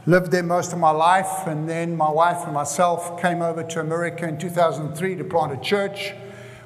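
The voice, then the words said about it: South African accent. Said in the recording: “I come from South Africa, as you can hear my accent.”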